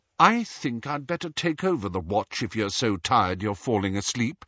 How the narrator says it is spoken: said coldly

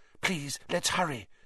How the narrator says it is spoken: Hermione whispered

